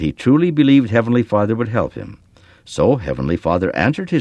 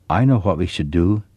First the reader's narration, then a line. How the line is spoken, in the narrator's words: Okori said quietly